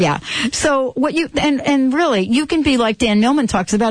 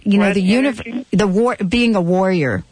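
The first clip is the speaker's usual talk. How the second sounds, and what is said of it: Put-on New York accent. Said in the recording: “That was my New York accent right there. ... You got my like New York version of warrior.”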